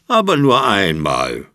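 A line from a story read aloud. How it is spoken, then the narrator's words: Resigned sigh. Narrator (German): seufzt Papa Osterhase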